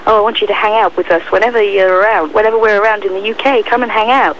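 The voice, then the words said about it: Put-on American accent. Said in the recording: “What accent was that? ... That's American!”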